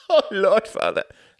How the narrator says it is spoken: laughed Klaus

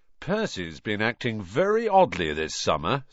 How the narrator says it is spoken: said George

